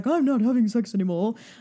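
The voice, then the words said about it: Poor imitation of another person's voice. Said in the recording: “that's that's a bad Stephen Fry impression.”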